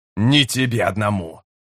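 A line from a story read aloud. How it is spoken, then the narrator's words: Said through gritted teeth. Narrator (Russian): процедил Камистрелой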